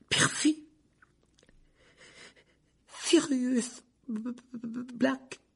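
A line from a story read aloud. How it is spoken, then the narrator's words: Weak voice. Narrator (French): dit Ron d'une voix faible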